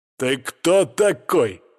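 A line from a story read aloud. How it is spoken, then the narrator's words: Growled. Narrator (Russian): рыкнул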